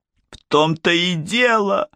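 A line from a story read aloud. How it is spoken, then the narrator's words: Sobbing. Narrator (Russian): зарыдала она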